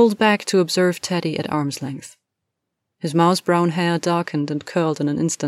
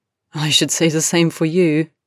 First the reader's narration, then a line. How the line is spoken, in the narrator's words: replied Harry, laughing